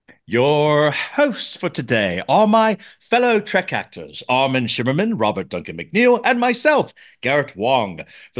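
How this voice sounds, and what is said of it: Theatrical semi-posh put-on accent. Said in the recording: “I don't know why I'm using this accent. ... I just feel like to be more theatrical with my delivery. ... It is semi-posh accent that I was using.”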